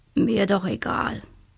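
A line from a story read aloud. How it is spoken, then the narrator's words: Boy grumbling. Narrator (German): brummte der Junge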